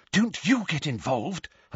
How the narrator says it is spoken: Hermione whispered urgently to him

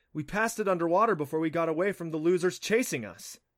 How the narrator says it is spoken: he added eagerly

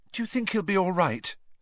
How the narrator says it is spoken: said Hermione nervously

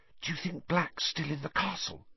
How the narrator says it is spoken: Hermione whispered anxiously

